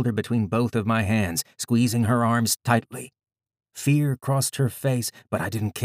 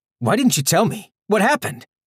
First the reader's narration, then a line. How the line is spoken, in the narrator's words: I was yelling, suddenly furious